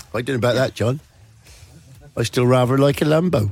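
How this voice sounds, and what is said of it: Failed attempt at Suffolk accent. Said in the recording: “That is not a Suffolk accent. ... No, it's not a Suffolk accent. I don't know what it was.”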